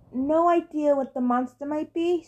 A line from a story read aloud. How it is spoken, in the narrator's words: mournfully